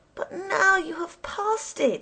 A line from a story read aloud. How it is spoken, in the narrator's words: cried